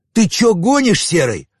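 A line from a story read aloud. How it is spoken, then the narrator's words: Yelling. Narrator (Russian): заорал Чин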